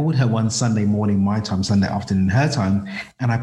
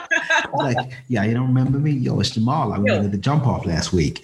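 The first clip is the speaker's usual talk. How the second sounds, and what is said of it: Put-on American accent. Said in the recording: “I put on an American accent ... Whenever I do American accent”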